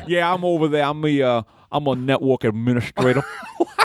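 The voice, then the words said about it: Put-on Southern bayou accent. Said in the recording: “You sound like you're from the bayou. ... he doesn't have an accent like that.”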